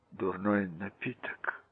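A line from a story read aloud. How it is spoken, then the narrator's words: Whispered. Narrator (Russian): прошептал он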